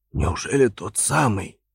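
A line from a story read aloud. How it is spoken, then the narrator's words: Hoarse, bewildered question. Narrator (Russian): спросил я хриплым голосом, на мгновение растерявшись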